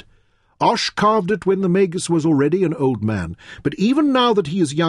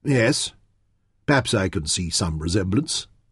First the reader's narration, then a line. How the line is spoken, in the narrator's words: Nefertiti murmured dubiously